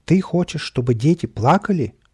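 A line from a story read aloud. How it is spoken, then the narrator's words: Exclaimed. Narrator (Russian): воскликнул кот в сапогах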